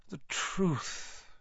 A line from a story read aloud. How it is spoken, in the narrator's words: Dumbledore sighed